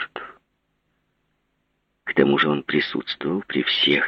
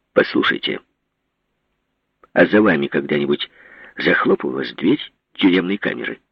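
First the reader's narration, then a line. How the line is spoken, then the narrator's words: Sharp question. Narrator (Russian): резко спросил Иван Васильевич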